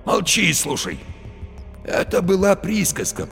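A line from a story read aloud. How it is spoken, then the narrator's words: Hoarse wheeze. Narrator (Russian): просипел Барила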